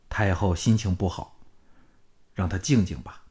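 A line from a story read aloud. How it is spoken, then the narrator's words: Low voice. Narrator (Chinese): 项少龙不想他们知道李嫣嫣亲手宰了李全，低声说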